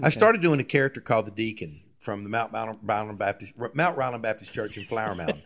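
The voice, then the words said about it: Louisiana accent. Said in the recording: “So that accent, by the way, you folks are listening to as a Louisiana.”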